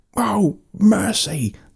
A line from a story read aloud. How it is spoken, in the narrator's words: the Gargonfan screamed